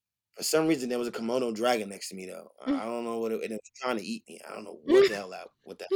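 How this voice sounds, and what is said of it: Usual voice. Nothing is said of it.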